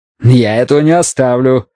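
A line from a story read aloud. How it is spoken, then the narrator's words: Snapping retort. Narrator (Russian): огрызнулся Джонстон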